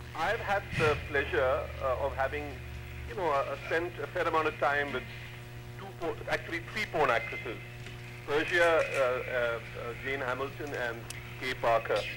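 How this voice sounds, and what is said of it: Distinctive accented speech. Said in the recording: “I like the way he talks ... He's got a great accent.”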